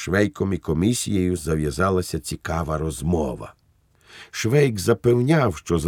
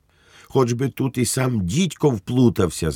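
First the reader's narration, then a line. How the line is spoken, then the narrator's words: Shriek. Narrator (Ukrainian): заверещав на Швейка голова комісії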